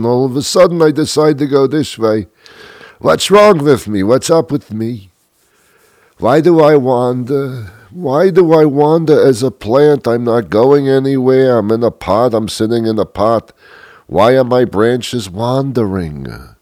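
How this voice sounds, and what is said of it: Put-on ethnic dialect voice. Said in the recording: “That's the only dialect I can do because it's so much fun to do it. Does that sound racist to you?”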